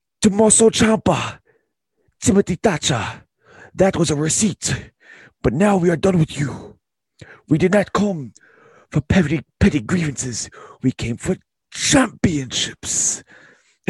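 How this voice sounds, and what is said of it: Imitates another person's accent. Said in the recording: “let me try to get the accent ... I can't keep that up for too long ... You're doing good”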